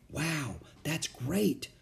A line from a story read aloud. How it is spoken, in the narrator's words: whispered Annie